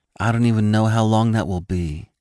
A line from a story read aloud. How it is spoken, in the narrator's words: Sasha said sadly